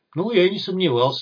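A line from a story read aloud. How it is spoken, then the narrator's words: Sighing. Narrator (Russian): вздохнул бандит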